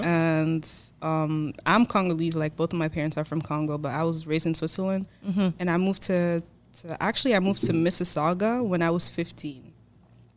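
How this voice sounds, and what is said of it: Foreign accent, not local. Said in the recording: “you heard my accent, like, I'm not from here.”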